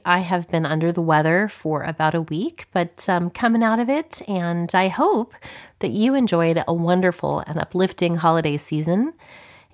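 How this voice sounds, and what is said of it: Froggy, hoarse voice. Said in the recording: “my voice is a little bit froggy today”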